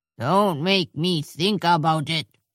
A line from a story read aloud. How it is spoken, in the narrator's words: he growled